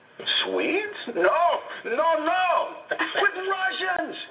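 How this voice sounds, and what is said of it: Failed Russian accent, sounds French. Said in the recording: “And that wasn't even a Russian accent! Somehow the French thing got in there somewhere.”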